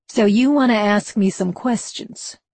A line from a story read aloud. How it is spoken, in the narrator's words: he asked in his American drawl